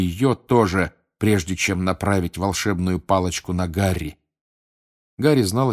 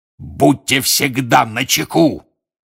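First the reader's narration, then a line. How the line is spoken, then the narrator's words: Roar. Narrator (Russian): взревел он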